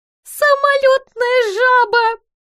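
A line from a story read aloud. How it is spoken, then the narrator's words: Groan, choking with suppressed laughter. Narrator (Russian): простонал задыхающийся от едва сдерживаемого смеха Дикий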